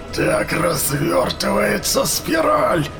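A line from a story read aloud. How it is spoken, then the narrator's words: Commander's growl. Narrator (Russian): прорычал военачальник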